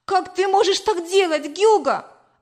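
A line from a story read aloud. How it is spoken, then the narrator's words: Exclaiming. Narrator (Russian): воскликнула я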